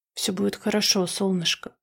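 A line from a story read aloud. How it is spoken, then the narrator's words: Mumbled softly. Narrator (Russian): пробормотала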